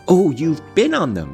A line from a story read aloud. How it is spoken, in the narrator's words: she cried gleefully